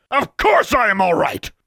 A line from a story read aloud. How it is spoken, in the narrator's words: she bellowed